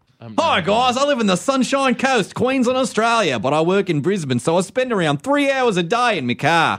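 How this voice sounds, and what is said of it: Put-on Australian accent. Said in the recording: “I just added the Australian accent, you guys.”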